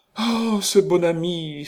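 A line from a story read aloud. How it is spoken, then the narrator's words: Joyful exclamation. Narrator (French): s'écria joyeusement Nita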